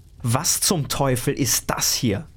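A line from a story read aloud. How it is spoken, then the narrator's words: Thundering. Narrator (German): donnerte er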